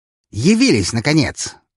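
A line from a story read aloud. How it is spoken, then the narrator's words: Angry exclamation. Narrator (Russian): с гневом в голосе воскликнула она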